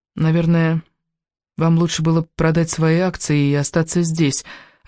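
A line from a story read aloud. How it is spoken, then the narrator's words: Timid. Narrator (Russian): робко заметила она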